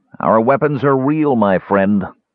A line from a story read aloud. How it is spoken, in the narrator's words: Faragus said harshly